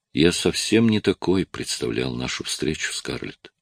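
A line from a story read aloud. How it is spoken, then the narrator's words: Said quietly. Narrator (Russian): он сказал ей тихо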